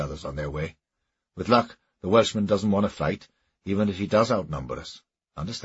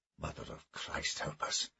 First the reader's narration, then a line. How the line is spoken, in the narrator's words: he whispered to himself as his gut instinct was confirmed